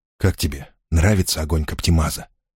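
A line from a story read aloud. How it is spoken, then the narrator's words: Whispered question. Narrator (Russian): шепотом спросил Сажирук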